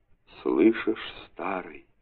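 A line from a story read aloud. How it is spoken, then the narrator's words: Whisper. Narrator (Russian): шепнули две рыбки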